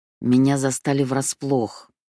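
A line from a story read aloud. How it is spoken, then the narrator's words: Through gritted teeth. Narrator (Russian): процедила Сети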